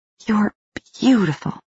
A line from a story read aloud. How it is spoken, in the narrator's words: Jane whispered